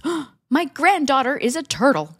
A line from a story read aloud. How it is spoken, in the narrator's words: She gasps